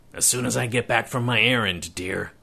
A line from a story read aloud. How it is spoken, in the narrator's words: Kelsey muttered … with a grim expression on his face